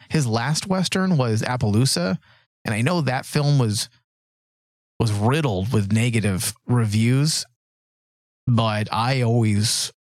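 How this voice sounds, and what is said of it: Strained, fading voice. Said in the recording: “losing my voice here.”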